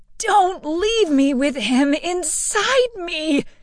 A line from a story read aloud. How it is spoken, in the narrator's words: Agnes screamed, her pleading voice